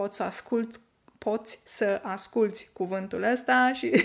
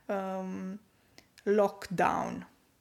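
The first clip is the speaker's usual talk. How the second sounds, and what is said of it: Strong Romanian accent on English word. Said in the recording (Romanian): “se pronunță cu accent românesc ... cu accentul ăsta puternic românesc”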